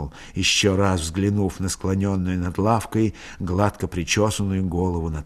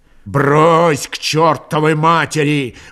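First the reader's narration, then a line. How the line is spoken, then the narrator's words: Old man's furious shout. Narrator (Russian): багровея от приступившего бешенства, крикнул старик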